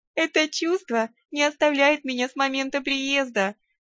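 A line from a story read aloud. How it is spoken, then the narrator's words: Laughing. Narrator (Russian): рассмеялась я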